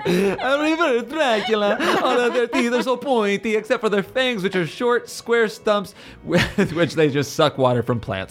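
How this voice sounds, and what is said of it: Dracula-style vampire accent. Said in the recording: “a reverse Dracula. Still doing the accent.”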